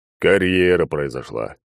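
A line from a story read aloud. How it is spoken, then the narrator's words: Sighing. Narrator (Russian): вздохнул друг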